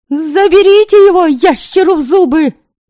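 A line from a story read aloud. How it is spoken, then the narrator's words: Exclamation. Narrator (Russian): воскликнула она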